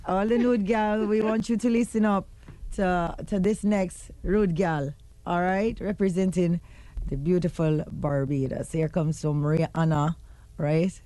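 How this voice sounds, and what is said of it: Slightly off put-on Jamaican accent. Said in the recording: “How's my Jamaican accent?... It kind of a little off, man... But you're trying.”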